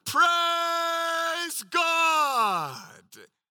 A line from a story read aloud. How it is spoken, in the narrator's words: when he saw that he was healed shouting